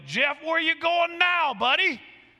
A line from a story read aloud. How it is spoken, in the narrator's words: one of them yelled